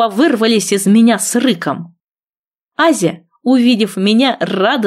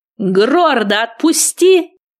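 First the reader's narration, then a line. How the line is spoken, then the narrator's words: Barked. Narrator (Russian): рявкнула я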